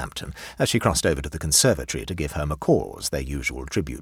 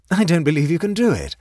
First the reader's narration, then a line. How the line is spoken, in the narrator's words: laughed Mary provocatively from the conservatory